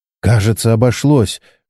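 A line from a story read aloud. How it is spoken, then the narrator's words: Exhaled with relief. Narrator (Russian): выдохнула Чен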